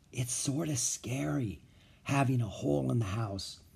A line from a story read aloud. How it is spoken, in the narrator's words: Beezus whispered